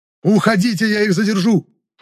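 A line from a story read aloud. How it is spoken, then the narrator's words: Shouting at top of lungs. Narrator (Russian): По всю горло прокричал я, надеясь, что Исла и Гимран меня услышат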